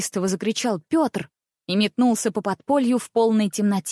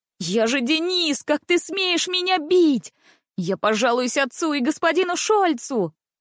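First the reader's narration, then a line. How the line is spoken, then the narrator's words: Frenzied scream filling the place. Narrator (Russian): Неистово завопил на все подполье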